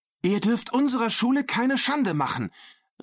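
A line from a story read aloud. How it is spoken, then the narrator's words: Called out. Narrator (German): rief Maria Dolores jetzt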